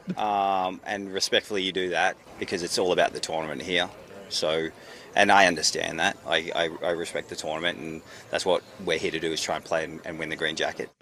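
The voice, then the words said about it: Australian accent. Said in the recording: “His voice, it gets me. Every time I hear an Australian accent”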